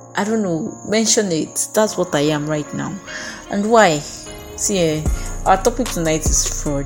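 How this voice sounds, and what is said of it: Low, tired-sounding voice. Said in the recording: “I feel so low. I feel so tired. ... even with the way I'm sounding, I sound like a victim”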